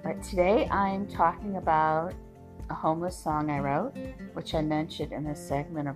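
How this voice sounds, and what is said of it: Scraggly, hoarse, fading voice. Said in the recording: “My voice is still a little scraggly. Feels like I'm losing it a bit.”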